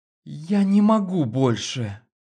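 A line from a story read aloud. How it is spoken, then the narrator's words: Moaning close to ear. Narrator (Russian): Простонала она мне в ухо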